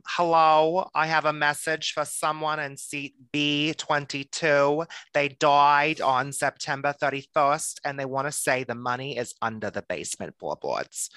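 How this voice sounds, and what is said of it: Imitates a TV psychic medium. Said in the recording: “as the Long Island medium ... That was a really good impression ... Teresa Caputo impersonations”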